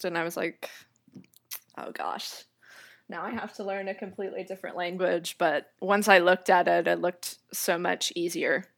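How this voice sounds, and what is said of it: American accent. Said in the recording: “you sound like you have an American accent”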